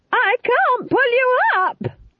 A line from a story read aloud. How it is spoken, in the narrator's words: screamed